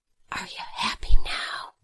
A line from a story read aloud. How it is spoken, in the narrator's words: Young Mom whispers directly into my ear